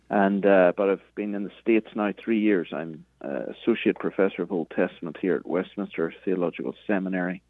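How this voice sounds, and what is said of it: Northern Irish Belfast accent. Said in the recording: “I'm from Belfast, Northern Ireland, originally, as you can hear from the accent.”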